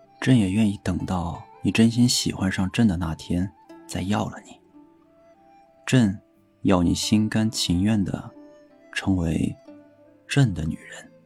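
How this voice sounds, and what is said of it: Soft whisper close to ear. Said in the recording (Chinese): “贴着他的耳畔， 小声说道”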